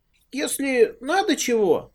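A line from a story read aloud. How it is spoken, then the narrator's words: Brave squeak. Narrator (Russian): храбро пропищал он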